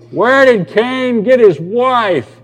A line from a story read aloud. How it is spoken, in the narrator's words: this guy in the back who kept shouting out